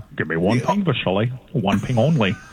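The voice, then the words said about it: Imitates another person's voice. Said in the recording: “Sean Connery”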